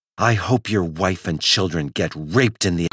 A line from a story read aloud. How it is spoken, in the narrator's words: hissing